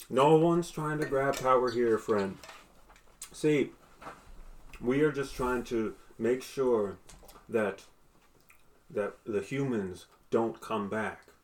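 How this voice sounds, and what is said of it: Character voice with an accent. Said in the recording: “I lost the accent somewhere.”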